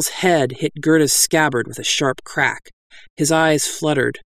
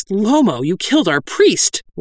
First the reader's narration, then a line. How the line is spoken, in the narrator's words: one of them cried